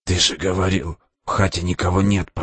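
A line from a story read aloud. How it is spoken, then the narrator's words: Whispered. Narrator (Russian): прошептал Димка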